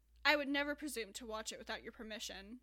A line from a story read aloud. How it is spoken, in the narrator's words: Betsy replied